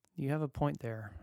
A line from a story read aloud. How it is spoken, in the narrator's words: I sighed